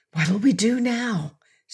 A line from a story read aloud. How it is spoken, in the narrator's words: Seton whispered